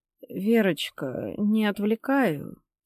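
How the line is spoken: Quiet question. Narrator (Russian): тихо спросила Тамара Ивановна

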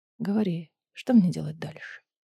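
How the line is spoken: Hoarse voice. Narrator (Russian): хрипло произнес

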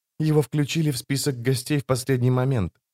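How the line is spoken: Whispered explanation. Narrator (Russian): шепотом объяснила она

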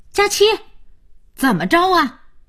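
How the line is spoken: Loud calling. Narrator (Chinese): 姥姥在门口大声叫着

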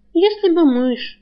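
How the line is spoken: Girl sighing. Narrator (Russian): вздохнула девушка

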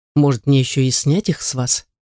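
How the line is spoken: Calm with cold steel. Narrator (Russian): Несостоявшийся жених спрашивает спокойно, но я чувствую холодную сталь в его голосе

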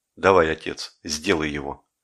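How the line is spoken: Quiet. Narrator (Russian): Жеглов тихо сказал Копырину

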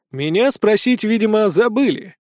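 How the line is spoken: Grumble. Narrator (Russian): проворчал я

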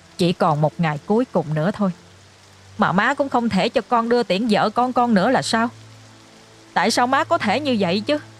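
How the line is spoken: Resentful, indignant. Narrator (Vietnamese): Anh nói với giọng đầy phẫn uất

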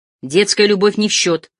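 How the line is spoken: Irritated interruption. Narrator (Russian): раздраженно перебил его Цахилганов

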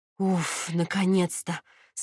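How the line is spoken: Relieved exhale. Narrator (Russian): с облегчением выдохнула я

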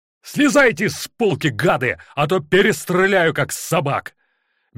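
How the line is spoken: Furious shouting. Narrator (Russian): бешено кричал Корчагин

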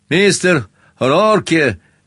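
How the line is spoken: Shouting into room. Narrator (Russian): закричал вглубь помещения

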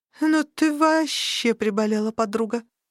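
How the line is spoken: Forced out, strained. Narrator (Russian): выдавила

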